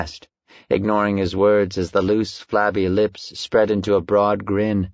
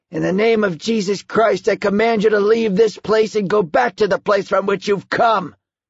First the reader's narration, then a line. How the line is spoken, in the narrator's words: shouted